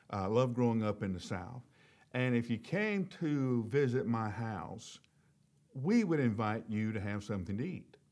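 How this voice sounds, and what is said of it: Southern American accent. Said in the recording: “I grew up in the South. That's, you know, you can probably tell by my accent.”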